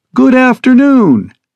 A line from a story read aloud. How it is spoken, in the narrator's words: she chirps resoundingly over the speakers